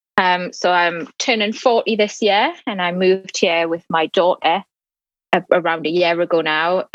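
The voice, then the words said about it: Northeast English accent. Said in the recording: “you can probably tell from the accent there that I'm an international student and I'm from the northeast of England”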